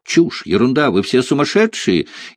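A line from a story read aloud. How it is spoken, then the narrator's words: Hysterical laughing speech. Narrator (Russian): истерически расхохоталась Рената или Мари Санфон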